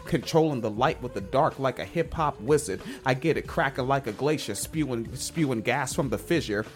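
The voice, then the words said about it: Very soft S sounds. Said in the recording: “it's your accent, too. Especially your S's. ... They're soft S's. ... They're very soft S's. ... you sound like snakes. That's why it's soft.”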